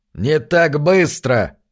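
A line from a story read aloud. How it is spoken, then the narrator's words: Grumbling old man. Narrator (Russian): проворчал старый Джонас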